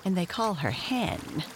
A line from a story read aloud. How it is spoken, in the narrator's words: she added, chuckling